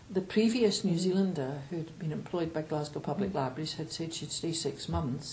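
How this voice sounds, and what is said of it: Scottish accent. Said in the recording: “You still have quite a good Scottish accent.”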